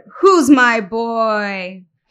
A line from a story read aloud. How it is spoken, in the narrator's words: roared